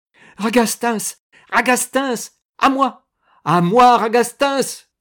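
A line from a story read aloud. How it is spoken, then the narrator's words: Screamed. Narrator (French): hurla Primevère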